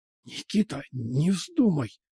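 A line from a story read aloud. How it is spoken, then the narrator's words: Hissing. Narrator (Russian): зашипела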